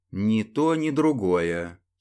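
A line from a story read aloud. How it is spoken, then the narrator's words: Calm reply. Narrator (Russian): спокойно ответил Глеб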